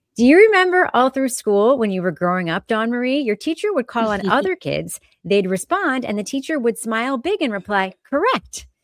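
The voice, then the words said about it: Impression of Emily, smiling. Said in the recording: “I'm going to try to do my Emily impression. I'm going to smile.”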